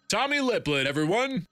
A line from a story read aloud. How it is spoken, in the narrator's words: He shouted